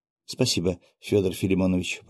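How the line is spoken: Whispering. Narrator (Russian): прошептала Василиса

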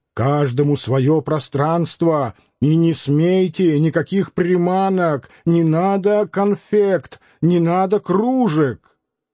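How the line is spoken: Shouting. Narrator (Russian): Диомидов кричал

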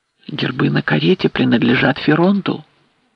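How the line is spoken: Frightened whisper. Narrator (Russian): ответил испуганный шепот

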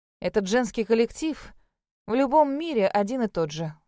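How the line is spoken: Inner sigh. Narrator (Russian): вздохнула я про себя

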